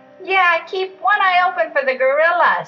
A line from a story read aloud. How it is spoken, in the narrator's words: shouted Riaz